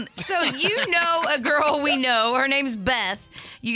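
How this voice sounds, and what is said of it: Usual voice. Nothing is said of it.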